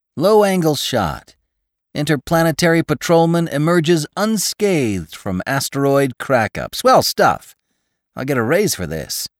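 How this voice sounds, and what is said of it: High, cracking character voice. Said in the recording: “cracked Hathaway's high voice.”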